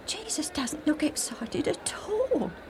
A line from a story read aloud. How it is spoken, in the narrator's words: Alf whispered to Joe